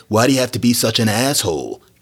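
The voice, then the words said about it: Casual impression of a Hollywood actor. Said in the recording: “That's my imitation of, like, Owen Pitt.”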